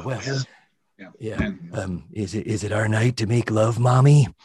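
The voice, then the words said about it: Ronald Reagan impression. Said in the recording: “do you do an impression of Ronald Reagan?”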